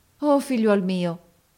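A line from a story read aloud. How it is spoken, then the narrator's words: Exclaiming. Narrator (Italian): esclamò essa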